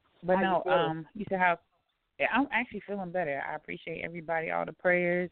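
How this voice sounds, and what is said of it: Slightly raspy voice. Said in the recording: “My voice is still a little raspy,”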